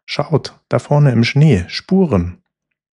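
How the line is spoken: Excited call. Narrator (German): rief Purzel aufgeregt

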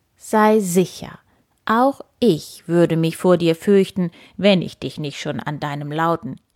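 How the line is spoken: Calm. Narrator (German): sagte nur ruhig

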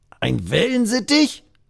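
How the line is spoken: Croaking, nearly choking. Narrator (German): krächzt der andere und verschluckt sich dabei fast

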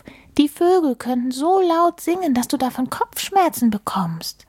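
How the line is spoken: Called out. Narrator (German): rief Maulwurf

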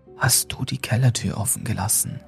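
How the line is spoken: Whispering. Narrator (German): flüsterte er

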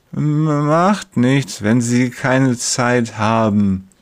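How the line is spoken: Slurred, heavy-tongued speech. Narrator (German): lallt er mit seiner neuen schweren Zunge

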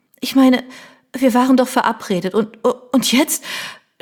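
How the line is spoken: Tearful stammering. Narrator (German): stotterte sie und fuhr sich mit der Hand über das Gesicht, um sich die Tränen von der Wange zu wischen

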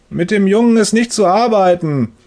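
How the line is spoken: Thundering through wall. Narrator (German): donnert Herr Müllers Stimme durch die Wand

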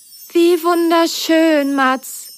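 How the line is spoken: Happy sigh. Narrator (German): seufzte Merle glücklich

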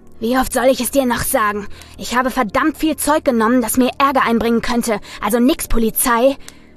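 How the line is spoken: Growled. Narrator (German): knurrte Andy

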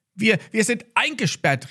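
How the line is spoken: Called out. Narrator (German): rief Max

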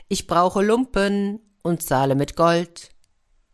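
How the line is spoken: Loud call. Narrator (German): rief laut

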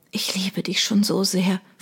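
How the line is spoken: Whispering. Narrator (German): flüsterte

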